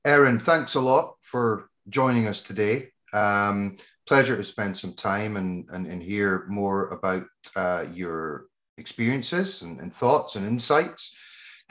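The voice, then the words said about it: Scottish accent. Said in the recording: “my Scottish brain accent”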